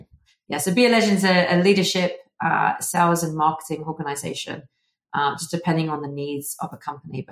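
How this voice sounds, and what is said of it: English accent. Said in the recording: “as you can tell from the accent, I am originally from England, the UK”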